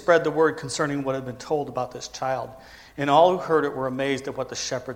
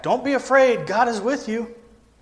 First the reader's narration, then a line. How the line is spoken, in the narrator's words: His father shouted back